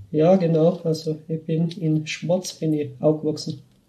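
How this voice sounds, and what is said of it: Tyrolean Austrian dialect. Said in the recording (German): “Was ist denn das für ein Dialekt eigentlich? ... Also das ist Tiroler Dialekt, also aus Westösterreich.”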